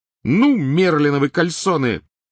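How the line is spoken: Sudden piercing shriek. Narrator (Russian): Вдруг завизжала она с такой силой, что Гарри и Рон подпрыгнули

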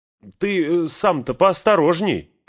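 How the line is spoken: Shouted. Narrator (Russian): крикнула она

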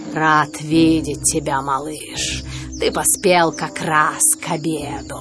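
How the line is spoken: Contented growl. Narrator (Russian): довольно зарычал и сказал

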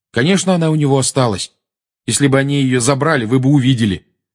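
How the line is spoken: Angry. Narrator (Russian): сердито сказал Гарри

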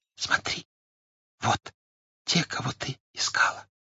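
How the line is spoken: Whispered. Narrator (Russian): он прошептал

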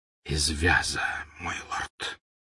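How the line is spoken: Whisper. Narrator (Russian): прошептал Малфой

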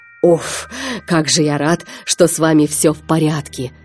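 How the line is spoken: Relieved exhale. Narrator (Russian): выдохнул пират

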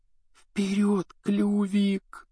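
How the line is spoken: Barely audible coaxing. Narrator (Russian): чуть слышно уговаривал гиппогрифа Гарри

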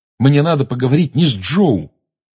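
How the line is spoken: Sharp reply. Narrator (Russian): резко ответил Гарри

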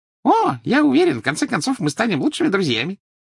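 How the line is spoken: Cheerful promise. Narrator (Russian): весело пообещал Дингл

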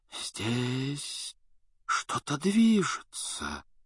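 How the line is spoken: Whisper. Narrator (Russian): прошептала профессор

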